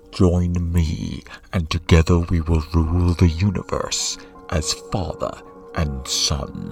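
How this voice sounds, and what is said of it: Darth Vader character voice. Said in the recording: “my Darth Vader impression ... Not bad, eh?”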